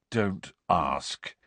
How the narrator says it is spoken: Harry muttered to Cho

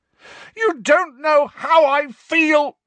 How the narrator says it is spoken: Harry roared

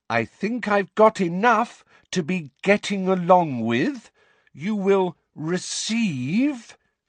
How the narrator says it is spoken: speaking once more in that loud, slow voice

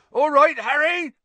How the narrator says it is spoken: Hagrid bellowed back

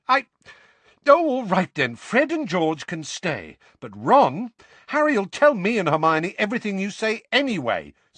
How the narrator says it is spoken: said Ron hotly

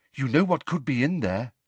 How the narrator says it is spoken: said Luna eagerly

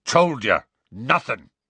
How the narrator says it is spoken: said Hagrid firmly

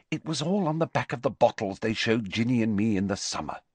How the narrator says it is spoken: she said coldly

